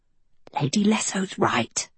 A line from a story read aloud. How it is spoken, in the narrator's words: Anadil whispered